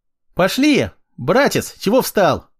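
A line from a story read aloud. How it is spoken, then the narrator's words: Cheerful shout, little girl. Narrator (Russian): Почему-то весело прокричала мелкая Аля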